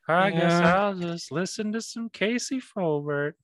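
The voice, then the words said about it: Imitates a cartoon character's voice. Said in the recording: “That was Strong Sad... It's been a while since I've done that impression.”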